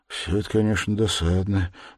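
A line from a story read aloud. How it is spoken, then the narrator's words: Absent-minded mutter. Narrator (Russian): пробормотал в ответ Раскольников, но с таким рассеянным и почти невнимательным видом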